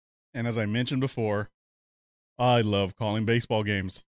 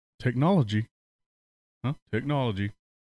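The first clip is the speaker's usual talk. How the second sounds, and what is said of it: Impersonation of Scott Simcoe. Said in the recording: “As Scott Simcoe would say ... That's my best Simcoe impersonation.”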